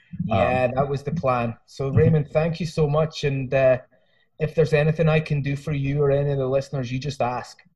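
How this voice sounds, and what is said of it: Hybrid Scottish-American accent. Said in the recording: “you have an accent. ... I'm originally from Scotland, but I've lived here for 22 years. So I've got a hybrid Scottish American kind of thing going on.”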